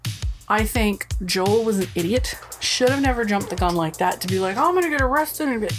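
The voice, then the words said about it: Rhode Island accent. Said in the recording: “Rhode Island accent's really coming out.”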